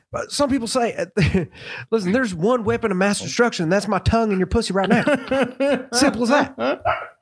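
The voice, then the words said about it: George W. Bush impression. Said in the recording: “do a Bush impression”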